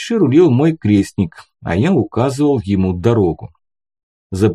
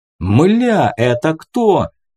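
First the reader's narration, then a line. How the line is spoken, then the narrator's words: Yell. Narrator (Russian): заорал Джон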